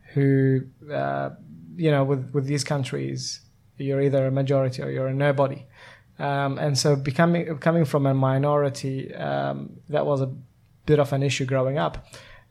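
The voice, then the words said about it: Non-native English accent. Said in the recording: “you hear my accent and you think, where is that from? I'm of an Iraqi background”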